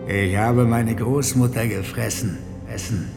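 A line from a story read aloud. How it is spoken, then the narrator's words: Growl from darkness above. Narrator (German): knurrte hoch oben in der Finsternis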